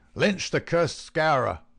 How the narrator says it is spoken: they cried

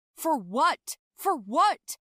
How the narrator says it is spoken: he shouted after me

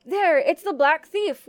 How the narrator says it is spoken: one exclaimed

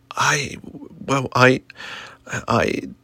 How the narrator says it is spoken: Tommy stuttered, struggling to find the words

